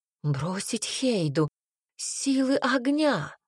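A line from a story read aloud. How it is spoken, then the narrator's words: Exclaiming. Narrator (Russian): воскликнула Эверин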